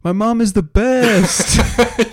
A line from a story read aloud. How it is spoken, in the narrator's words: he, like, yells